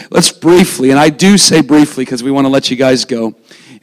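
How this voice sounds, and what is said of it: Hoarse, fading voice. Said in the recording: “I'm losing my voice, as probably many of you could tell.”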